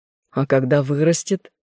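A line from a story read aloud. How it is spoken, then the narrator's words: Hunter's skeptical snort. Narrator (Russian): охотник хмыкнул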